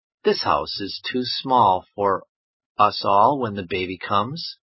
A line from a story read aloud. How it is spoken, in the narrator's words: said Mr